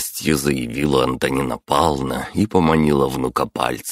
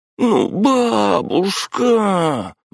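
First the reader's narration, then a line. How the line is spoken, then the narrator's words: Martyred groan. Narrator (Russian): мученически простонал тот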